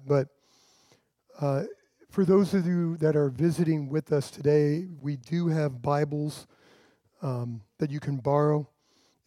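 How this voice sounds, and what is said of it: Unusually deep, under-the-weather voice. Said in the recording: “tell by my voice, it's a little bit more deeper than normal... the junk that's been going around, I'm fighting through that”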